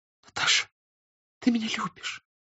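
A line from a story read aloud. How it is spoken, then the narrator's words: Soft trusting whisper. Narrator (Russian): сказала она тихим, доверчивым шепотом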